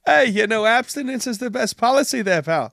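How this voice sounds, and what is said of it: Weak attempt at Australian accent. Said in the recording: “I have no Australian accent. I got to work on that.”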